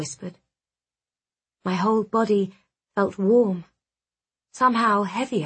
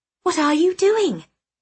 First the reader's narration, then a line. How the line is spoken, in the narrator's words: I snapped